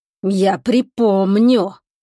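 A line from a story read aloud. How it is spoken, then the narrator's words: Hiss up close. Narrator (Russian): прошипел он прямо в лицо Чебурану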